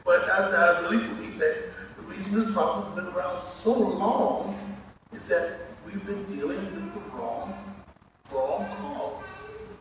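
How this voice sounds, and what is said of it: Very strong accent. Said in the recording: “I know it's a very strong accent.”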